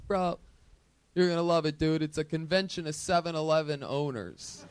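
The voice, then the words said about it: Sam Tripoli impression. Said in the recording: “A very good Sam Tripoli impression.”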